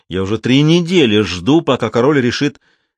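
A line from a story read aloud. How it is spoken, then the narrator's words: Irritated self-assured giant. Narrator (Russian): самоуверенный гигант, раздраженно сказал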